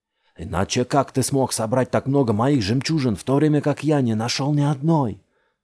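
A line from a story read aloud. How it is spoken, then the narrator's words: Shouted. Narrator (Russian): закричал Джамил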